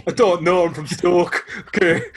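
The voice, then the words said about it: Put-on Jamaican-sounding accent. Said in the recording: “Why do you sound Jamaican? ... He's like Sebastian from The Little Mermaid.”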